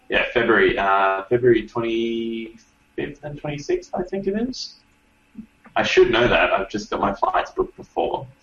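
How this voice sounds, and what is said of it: Australian accent. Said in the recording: “bask in his Australian accent”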